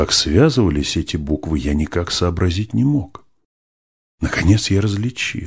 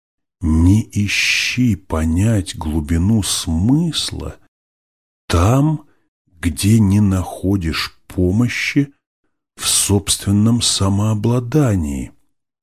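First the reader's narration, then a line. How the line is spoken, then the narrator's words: Slow, fluent reading. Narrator (Russian): прочел я медленно, но без запинки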